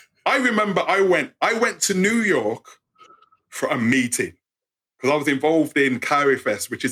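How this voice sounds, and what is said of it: English accent. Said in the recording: “over there, it's like I, I sound English.”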